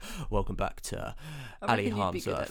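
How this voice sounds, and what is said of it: Posh radio presenter voice. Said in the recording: “I just love how posh you sound whenever it's on your podcast ... this is my podcast voice. This is like my radio voice.”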